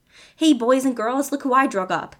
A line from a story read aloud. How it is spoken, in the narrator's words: Tommy yelled